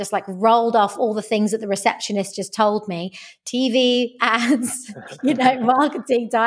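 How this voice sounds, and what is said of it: Usual voice. Nothing is said of it.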